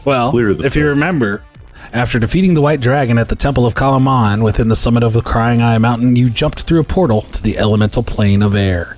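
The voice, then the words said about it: Storytelling narrator voice. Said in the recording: “narrator voice”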